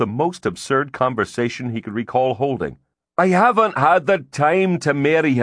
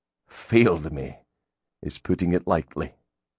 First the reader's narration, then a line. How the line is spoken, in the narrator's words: Grim muttered